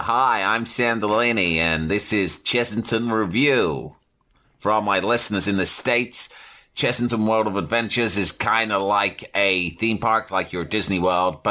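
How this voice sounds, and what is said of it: Put-on American accent. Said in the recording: “In an American accent.”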